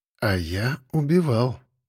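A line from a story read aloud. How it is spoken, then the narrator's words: Quiet, reminiscent. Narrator (Russian): тихо проговорил, вспомнив былое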